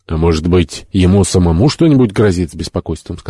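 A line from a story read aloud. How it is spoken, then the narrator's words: Plain. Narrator (Russian): сказал Джо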